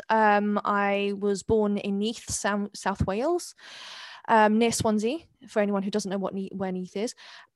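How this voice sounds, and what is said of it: Very English accent. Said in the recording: “I'm actually Welsh, despite the very English accent.”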